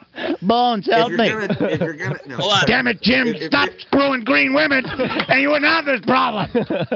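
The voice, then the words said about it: Imitates another person's voice. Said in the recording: “do a Shatner impersonation”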